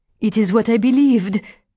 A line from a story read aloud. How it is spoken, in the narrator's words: cried Adèle